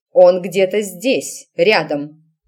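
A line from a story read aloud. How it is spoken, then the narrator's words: Sharp, cutting off. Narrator (Russian): резко оборвала матушка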